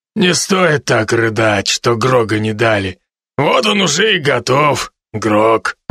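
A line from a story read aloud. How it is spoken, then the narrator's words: Deep bass voice. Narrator (Russian): пробасил над нами медведь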